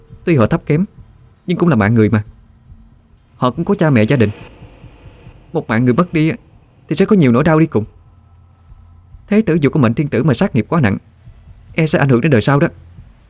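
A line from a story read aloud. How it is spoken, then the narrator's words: Angry. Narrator (Vietnamese): Hòa Hương liền tức giận nói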